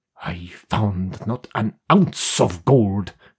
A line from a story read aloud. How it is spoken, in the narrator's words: he growled